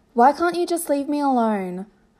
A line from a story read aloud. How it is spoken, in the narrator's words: He stopped, then sighed